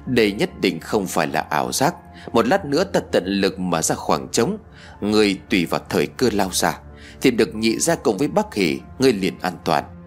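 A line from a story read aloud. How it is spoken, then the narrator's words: Quiet voice. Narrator (Vietnamese): Hắn nhỏ giọng nói với tôi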